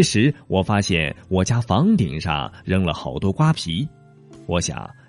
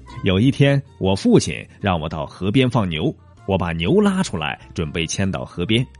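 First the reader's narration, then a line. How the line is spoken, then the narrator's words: Laughing. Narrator (Chinese): 阿凡提笑道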